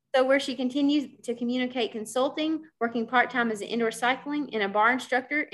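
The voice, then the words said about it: Kentucky American accent. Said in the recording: “my Kentucky accent will come out”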